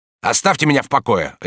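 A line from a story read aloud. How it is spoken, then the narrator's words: Sharp. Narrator (Russian): резко сказал он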